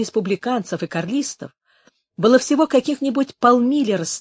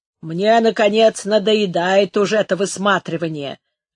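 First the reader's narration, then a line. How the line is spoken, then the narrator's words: Grumbling guard. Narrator (Russian): ворчал один из караульных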